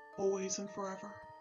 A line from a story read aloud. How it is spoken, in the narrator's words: he mumbled in response